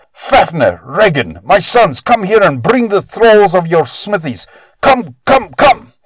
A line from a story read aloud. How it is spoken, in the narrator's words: he shrieked out